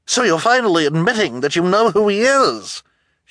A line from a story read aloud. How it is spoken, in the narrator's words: she cried triumphantly